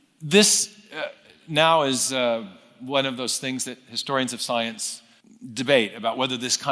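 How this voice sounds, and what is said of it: Usual voice. Nothing is said of it.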